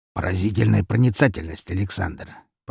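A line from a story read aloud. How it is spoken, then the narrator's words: Grumbled. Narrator (Russian): проворчал он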